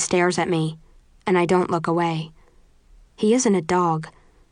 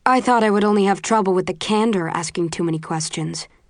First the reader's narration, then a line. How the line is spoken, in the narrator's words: he says coldly